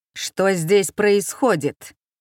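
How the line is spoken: Menacing growl from doorway. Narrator (Russian): грозно рыкнул от порога второй немец

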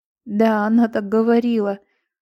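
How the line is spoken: Tearful speech. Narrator (Russian): сквозь слезы

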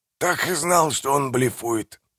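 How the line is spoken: Nervous dry whisper. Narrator (Russian): прошептал Манфред, но во рту у него пересохло

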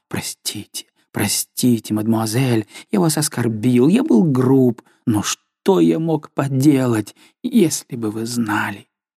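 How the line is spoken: Embarrassed whisper. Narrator (Russian): несколько смутившись, шептал

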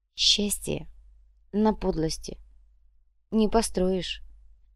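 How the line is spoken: Barely audible. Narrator (Russian): едва слышно проронила Тратасара

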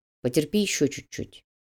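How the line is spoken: Quiet. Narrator (Russian): негромко произнес Макс

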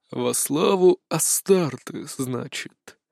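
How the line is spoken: Thoughtful drawl. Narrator (Russian): задумчиво протянул инквизитор

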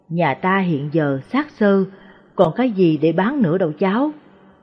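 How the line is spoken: Old woman sighing. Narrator (Vietnamese): Bà nội thở dài

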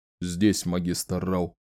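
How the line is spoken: Plain. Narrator (Russian): сказал генерал Керсон

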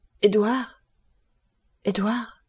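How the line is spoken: Stammering. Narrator (French): balbutia-t-il

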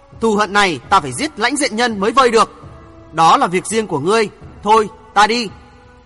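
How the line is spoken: Angry through gritted teeth. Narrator (Vietnamese): Người mặc đồ trắng mặt trở nên giận dữ, cắn răng nói

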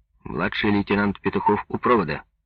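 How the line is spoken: Brisk cheerful. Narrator (Russian): бодро произнес Петухов

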